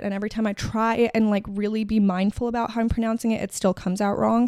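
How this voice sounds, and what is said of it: American accent. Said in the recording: “I was born with an American accent, or not born, I guess you learn it, but I've very much an American accent”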